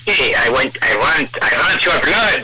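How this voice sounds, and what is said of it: Dracula-style vampire voice impression. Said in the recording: “I can't do Dracula that well, but I'll certainly try ... That was a good Bela Lugosi.”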